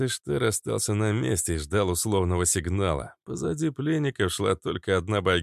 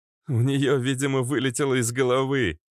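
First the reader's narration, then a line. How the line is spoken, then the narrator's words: Laughing. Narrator (Russian): засмеялся Резвый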